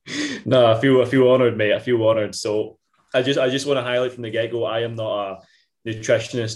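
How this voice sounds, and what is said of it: Scottish Ayrshire accent. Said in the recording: “another Ayrshire boy ... the proper Ayrshire accent”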